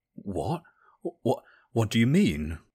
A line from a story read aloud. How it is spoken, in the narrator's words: spluttered into his beer